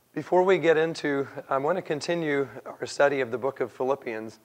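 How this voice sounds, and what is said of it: Croaky, strained voice. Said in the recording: “I hope that my voice isn't too distracting this morning and that it actually stays and doesn't croak around”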